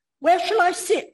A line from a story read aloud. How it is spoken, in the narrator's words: Elizabeth always nervously inquires